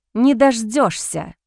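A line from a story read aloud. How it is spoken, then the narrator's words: Hissed. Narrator (Russian): прошипела девушка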